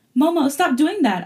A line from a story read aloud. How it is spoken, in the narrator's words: I yelled as she kept tickling me